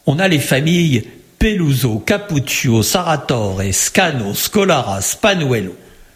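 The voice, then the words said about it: Put-on sing-song accent. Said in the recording (French): “Je ne sais pas si mon accent est bon, j'essaie de chanter un peu. ... Mais ça chante, c'est bien”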